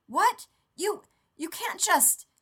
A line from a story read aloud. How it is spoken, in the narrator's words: Rodney spluttered